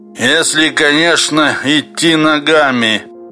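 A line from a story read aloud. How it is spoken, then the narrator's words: Hoarse, from behind. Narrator (Russian): хрипит сзади Юрковский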